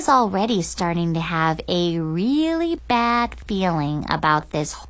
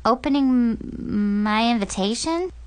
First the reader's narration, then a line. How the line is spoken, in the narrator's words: stammered